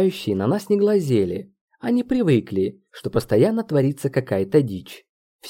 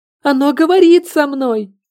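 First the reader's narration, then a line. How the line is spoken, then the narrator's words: Louder screaming. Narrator (Russian): еще громче завопила Маша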